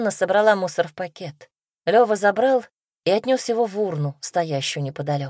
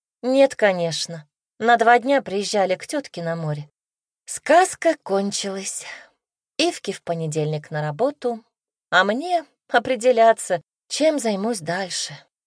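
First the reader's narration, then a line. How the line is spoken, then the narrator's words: Dejected voice. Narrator (Russian): упавшим голосом сообщила Тося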